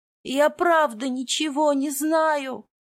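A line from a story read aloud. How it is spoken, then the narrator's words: Whining. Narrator (Russian): скулил Мракен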